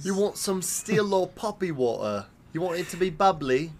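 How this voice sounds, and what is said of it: Put-on British accent. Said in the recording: “I really apologize to all our British fans... This is impersonations of endearment.”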